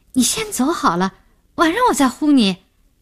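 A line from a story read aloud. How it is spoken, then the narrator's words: Calling out. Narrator (Chinese): 叫那个男的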